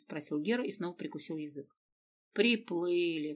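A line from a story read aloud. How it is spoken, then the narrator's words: Mocking reply. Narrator (Russian): насмешливо ответила Дина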